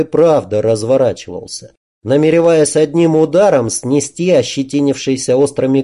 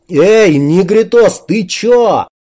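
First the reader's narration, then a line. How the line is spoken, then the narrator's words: Terrified yelling. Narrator (Russian): перепуганно заорал кирпич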